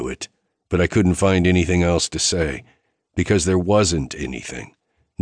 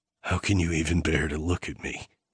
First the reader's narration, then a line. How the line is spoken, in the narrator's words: I rasped out